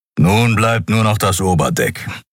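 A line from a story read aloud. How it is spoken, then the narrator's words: Growled. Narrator (German): knurrte er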